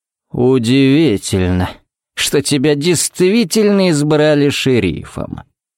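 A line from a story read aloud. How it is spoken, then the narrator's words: Drawled. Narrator (Russian): протянул он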